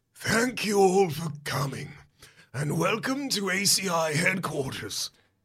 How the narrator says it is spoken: he rasps

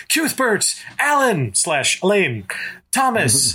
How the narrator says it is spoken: His scream sounded puny and thin in the heat

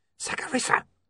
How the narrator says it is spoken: hissed William urgently

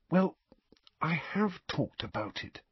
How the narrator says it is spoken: Harry said in a whisper

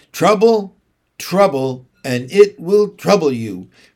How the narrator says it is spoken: retorted Mary Poppins crossly in her usual voice

